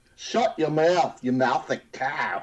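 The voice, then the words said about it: Poor attempt at Cockney accent. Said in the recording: “in a Cockney accent ... sounds horrible”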